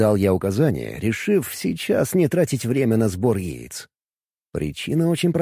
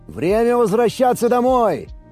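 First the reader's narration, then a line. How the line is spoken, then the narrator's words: Shout. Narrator (Russian): прокричал я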